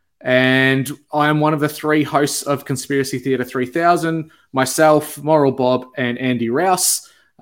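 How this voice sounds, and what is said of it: Australian accent. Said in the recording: “he has a sweet, sweet Australian accent that we all love”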